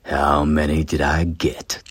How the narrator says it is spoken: Tane sneered at them and said

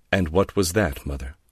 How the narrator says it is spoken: Laura said coldly

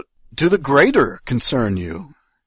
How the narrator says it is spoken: I blurted out

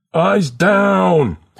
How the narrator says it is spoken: College scream

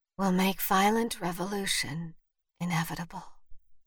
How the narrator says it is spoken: Vivian whispered

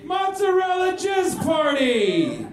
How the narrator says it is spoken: Pistachio shouted after direction from Adam Sandler

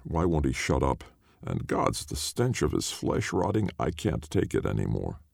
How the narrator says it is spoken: I could hear them outside the tent muttering

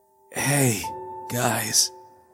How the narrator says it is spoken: he managed weakly

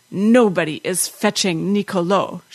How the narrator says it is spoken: she said, her voice husky with rage

